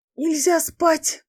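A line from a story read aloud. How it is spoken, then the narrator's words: Wheezed with lost voice. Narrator (Russian): просипела сорвавшая голос Фей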